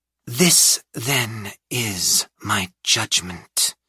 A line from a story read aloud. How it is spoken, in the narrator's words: Mab said, turning away and vanishing toward the shadows, her voice drifting out behind her